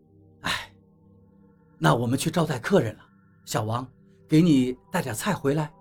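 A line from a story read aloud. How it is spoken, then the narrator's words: Sighing. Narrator (Chinese): 陈阿姨叹口气，对王八说道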